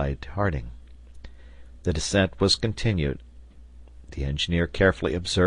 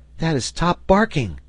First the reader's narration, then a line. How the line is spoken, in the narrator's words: cried Herbert